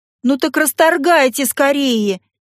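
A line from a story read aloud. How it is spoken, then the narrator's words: Shouted out. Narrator (Russian): выкрикнула я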